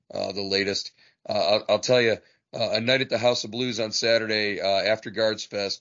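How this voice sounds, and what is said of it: Slightly hoarse voice. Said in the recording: “my voice is a little bit hoarse right now”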